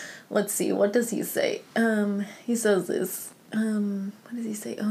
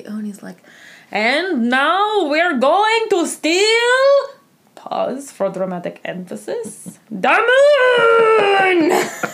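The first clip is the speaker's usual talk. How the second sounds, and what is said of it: Put-on Russian cartoon villain accent. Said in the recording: “I can do Gru Russian. ... I love doing Gru's accent. ... That was really good.”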